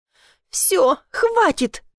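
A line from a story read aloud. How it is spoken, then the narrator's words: Exclaiming. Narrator (Russian): воскликнула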